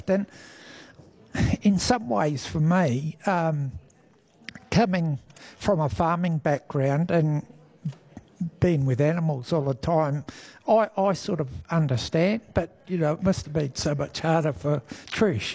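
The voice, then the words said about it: Emotional voice. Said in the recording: “you're getting emotional talking about it”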